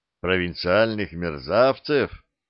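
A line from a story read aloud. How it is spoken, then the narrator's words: Dismissive snort. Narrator (Russian): хмыкнул Штубер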